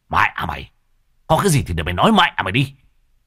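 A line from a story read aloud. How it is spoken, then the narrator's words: Near shouting. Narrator (Vietnamese): Lão Thiết nói như quát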